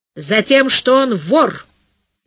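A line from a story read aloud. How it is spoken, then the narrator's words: Angry. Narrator (Russian): сердито сказала Зинуля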